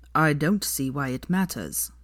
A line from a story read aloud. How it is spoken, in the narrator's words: said Draco coldly